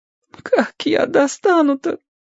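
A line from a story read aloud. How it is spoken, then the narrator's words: Frightened crying. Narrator (Russian): Он уже не всхлипывал, а плакал и был похож на перепуганного третьеклассника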